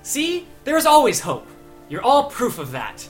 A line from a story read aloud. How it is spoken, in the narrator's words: Solas just beams extra brightly and just says